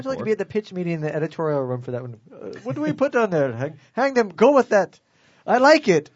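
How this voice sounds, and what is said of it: Put-on Indian-sounding accent. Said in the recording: “Are they Indian in Uganda? ... That's my standard accent. ... just has the one accent.”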